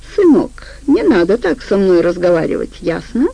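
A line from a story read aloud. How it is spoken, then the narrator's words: Almost tender. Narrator (Russian): Почти ласково произнес он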